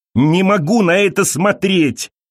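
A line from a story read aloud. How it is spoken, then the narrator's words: Screamed. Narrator (Russian): закричала Элиза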